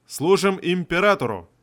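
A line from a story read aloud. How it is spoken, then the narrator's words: Guards barking in unison. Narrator (Russian): Рявкнули стражники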